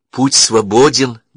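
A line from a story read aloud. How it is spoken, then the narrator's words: Trembling voice. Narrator (Russian): дрогнувшим голосом проговорила она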